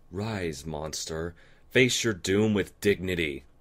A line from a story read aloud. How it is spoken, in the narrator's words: Luna roared